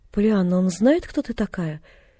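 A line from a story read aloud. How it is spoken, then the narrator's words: Unexpectedly meek question. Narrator (Russian): Неожиданно кротким голосом осведомилась она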